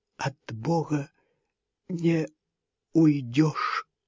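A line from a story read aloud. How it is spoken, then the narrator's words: Faint strained whisper. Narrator (Russian): Взгляд Хильды застыл, глаза остекленели, но она сумела прошептать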